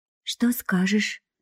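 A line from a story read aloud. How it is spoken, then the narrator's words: Friend whispering suspiciously. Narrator (Russian): шепнула подружка, подозрительно оглядываясь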